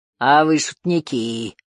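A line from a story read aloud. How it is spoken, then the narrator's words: Loud booming bass. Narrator (Russian): прогудел он громким басом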